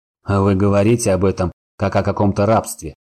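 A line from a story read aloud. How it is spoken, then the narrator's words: Scoffing snort. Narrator (Russian): хмыкнул Сорил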